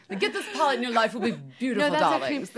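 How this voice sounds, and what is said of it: British accent impression of Charlotte Tilbury. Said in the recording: “Charlotte Tilbury is like... British accent is horrible... That's actually pretty good.”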